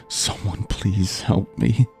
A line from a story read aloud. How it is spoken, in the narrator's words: I whispered while I cried